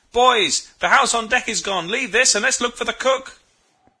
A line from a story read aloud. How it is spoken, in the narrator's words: Suddenly it dawned upon me, and I shouted